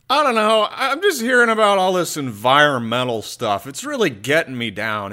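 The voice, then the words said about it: Sad, downcast voice. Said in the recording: “You sound really sad.”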